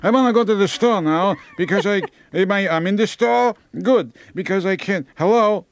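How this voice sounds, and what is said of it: Elderly Jewish accent. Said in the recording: “everyone, when they get old, no matter what religion they are, they have a Jewish accent. Even Irish people”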